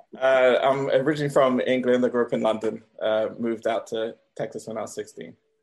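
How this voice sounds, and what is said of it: English London accent. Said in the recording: “your accent was different from that guy up top named Antoine... from London”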